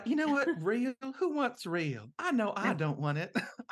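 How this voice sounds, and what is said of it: Exaggerated Southern belle accent. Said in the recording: “Uma Thurman's accent in that movie, by the way, is interesting ... by that you mean not good ... I know she's going for like a Southern thing, but it sounds like she's playing, it sounds like she's specifically doing like Blanche DuBois”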